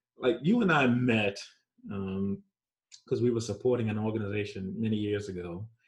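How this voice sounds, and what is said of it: New York accent. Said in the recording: “My New York accent is hard. It's hard to overcome.”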